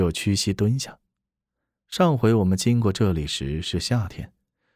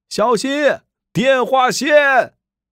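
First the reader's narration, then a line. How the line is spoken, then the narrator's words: Shouting. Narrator (Chinese): 有人喊着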